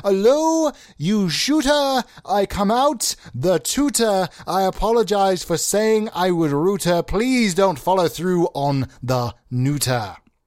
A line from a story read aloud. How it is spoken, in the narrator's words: The man screamed